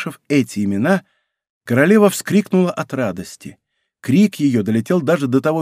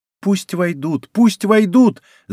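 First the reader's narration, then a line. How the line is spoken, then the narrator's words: Young woman shouting. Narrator (Russian): закричала и молодая принцесса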